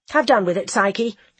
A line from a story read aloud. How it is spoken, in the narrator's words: I said sharply